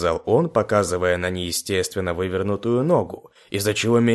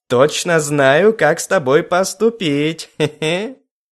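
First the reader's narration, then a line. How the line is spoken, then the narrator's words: Giggling. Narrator (Russian): хихикнул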